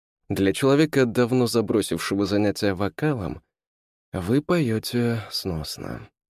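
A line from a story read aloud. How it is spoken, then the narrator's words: Sigh. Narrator (Russian): вздохнул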